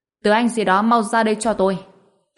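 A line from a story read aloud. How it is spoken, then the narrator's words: Raised voice. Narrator (Vietnamese): cao giọng nói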